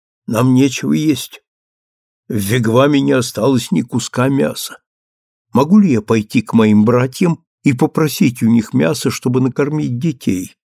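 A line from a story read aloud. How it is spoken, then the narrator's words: Plain question. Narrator (Russian): спросила она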